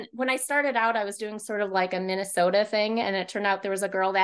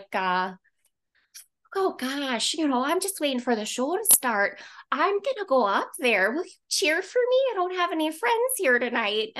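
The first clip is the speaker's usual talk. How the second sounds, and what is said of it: Put-on hardcore Midwestern accent. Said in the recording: “hardcore Midwestern”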